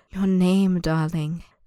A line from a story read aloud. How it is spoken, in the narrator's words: the man purrs, so soft it feels as if he hasn't spoken the words at all